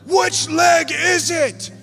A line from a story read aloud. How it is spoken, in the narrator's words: He starts yelling